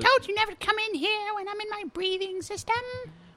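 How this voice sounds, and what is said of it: Silly put-on character voice. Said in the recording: “He sounds like this really stupid voice.”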